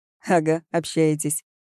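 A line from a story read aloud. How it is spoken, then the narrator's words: Giggle. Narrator (Russian): хихикнул Троп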